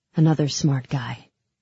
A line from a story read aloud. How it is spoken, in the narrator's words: said coldly